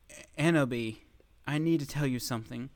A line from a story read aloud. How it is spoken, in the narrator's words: he said in a serious voice